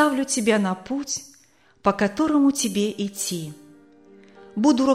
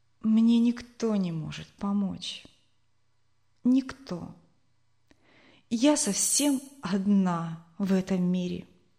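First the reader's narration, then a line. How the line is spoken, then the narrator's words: Quiet female reply. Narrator (Russian): тихо ответила молодая женщина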